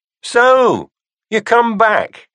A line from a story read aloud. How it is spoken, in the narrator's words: called out